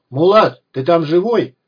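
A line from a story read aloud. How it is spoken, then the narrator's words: Shouted. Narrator (Russian): Лексус прокричал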